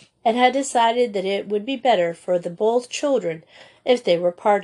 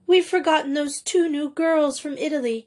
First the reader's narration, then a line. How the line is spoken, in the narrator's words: gasped Miss Menard